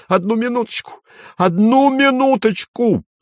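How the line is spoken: Shrill falsetto yell. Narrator (Russian): завопил он пронзительным фальцетом

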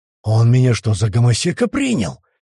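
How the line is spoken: Angry hiss. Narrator (Russian): прошипел тот

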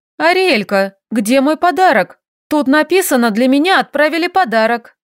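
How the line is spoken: Indignant. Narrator (Russian): возмущенно произнесла

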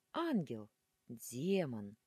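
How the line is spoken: Two men sighing together. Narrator (Russian): в унисон вздохнули два парня

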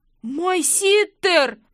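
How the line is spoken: Howling blond man. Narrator (Russian): взвыл блондин

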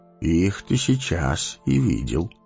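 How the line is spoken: Calm. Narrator (Russian): спокойно сказал Гэндальф

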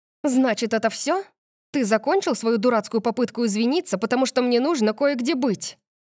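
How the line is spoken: Snapped retort. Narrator (Russian): Огрызнулась я

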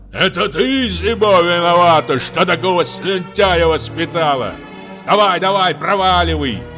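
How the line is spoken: Man shouting from above. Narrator (Russian): кричал мужчина сверху

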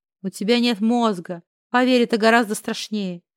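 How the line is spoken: Smirking scoundrel. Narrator (Russian): Хмыкнул подлец

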